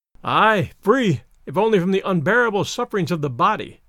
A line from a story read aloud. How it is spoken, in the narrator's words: comes in a sigh